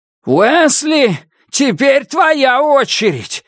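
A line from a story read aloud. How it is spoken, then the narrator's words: Shout, then tender reverent repeat. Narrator (Russian): выкрикнул Дики и повторил еще раз, почти нежно и благоговейно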